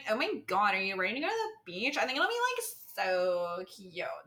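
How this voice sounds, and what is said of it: Put-on Valley Girl accent. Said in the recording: “my Valley Girl accent”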